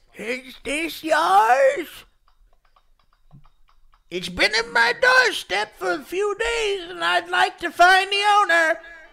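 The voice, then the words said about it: Old lady voice. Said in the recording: “do an old lady voice”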